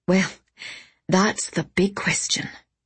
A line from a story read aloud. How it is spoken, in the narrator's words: she said, with a bitter laugh